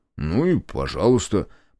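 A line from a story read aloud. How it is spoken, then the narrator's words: Muttered. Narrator (Russian): пробормотал он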